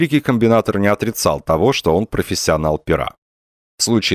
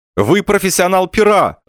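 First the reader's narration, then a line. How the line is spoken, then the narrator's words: Shout. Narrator (Russian): закричал Лавуазьян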